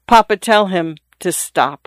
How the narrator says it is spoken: the young lady said in a low voice

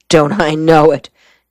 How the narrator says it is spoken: Gerald Shore exclaimed

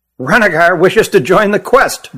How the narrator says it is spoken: blurted Hutt

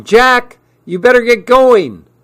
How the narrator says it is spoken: Mom yelled again

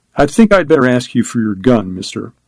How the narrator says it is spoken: his voice coldly polite

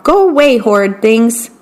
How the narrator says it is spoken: he would shout

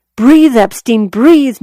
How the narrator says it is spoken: Noelle recalled him shouting

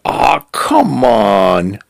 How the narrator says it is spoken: groaning

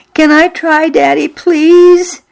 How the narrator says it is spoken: I begged

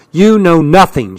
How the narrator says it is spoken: she snapped

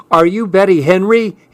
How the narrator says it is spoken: he yelled

